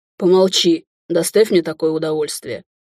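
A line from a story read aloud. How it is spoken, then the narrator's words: Grumbling. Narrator (Russian): проворчал Назар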